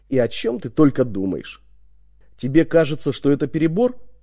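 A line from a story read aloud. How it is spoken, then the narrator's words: Plain question. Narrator (Russian): спросил я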